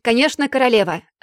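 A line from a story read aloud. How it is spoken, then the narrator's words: Yelling one-eyed viking. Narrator (Russian): заорал одноглазый викинг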